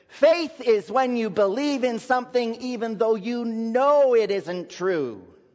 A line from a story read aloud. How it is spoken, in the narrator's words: she very eagerly announced in a loud voice for all to hear